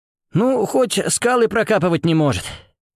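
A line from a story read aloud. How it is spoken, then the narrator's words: Nervous exhale. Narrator (Russian): нервно выдохнул Орлов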